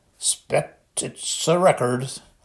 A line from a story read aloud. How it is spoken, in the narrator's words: said thickly